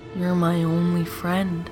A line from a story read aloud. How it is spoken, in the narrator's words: purred